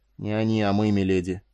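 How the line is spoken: Grim reply. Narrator (Russian): ответил Эстергази мрачно

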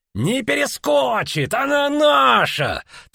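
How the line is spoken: Triumphant shout. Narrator (Russian): торжествующе крикнул Мун

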